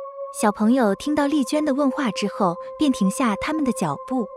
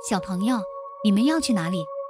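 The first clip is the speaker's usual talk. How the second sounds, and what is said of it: Gentle soft voice. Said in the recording (Chinese): “用温柔的声音说”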